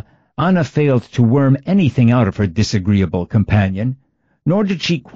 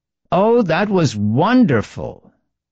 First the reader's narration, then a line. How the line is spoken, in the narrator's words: Anna exclaimed